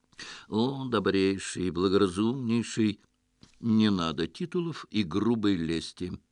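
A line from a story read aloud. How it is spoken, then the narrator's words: Gently interrupting. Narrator (Russian): мягко остановил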